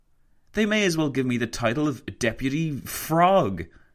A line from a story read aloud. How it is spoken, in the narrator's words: he exclaimed to Roosevelt